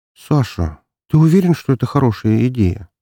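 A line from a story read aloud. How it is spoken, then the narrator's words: Hesitant. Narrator (Russian): Начала она неуверенно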